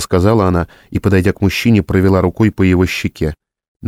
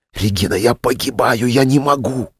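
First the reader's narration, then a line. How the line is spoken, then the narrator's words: Loud, urgent whisper. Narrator (Russian): громким шепотом прокричал Вениамин Волков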